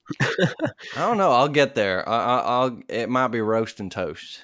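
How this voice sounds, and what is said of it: Cowboy drawl like Matthew McConaughey. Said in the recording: “Little cowboy. Little Matthew McConaughey.”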